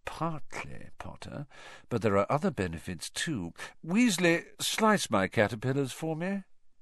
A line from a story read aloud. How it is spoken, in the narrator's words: said Malfoy, lowering his voice to a whisper